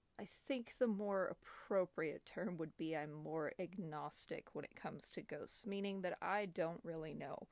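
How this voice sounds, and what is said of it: American accent. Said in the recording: “I am an American, clearly, by my accent”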